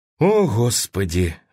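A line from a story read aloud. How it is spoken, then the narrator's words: Sigh. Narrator (Russian): вздохнул он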